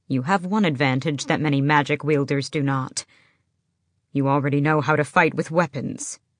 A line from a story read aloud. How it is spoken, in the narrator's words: he added sharply